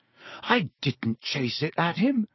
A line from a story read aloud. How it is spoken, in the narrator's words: Harry said, his voice shaking with anger